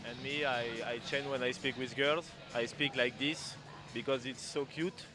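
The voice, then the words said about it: French-accented English. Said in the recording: “I'm trying to speak English with a good accent, but it's very difficult for me. I know that it's funny when I speak to people with a French accent like this.”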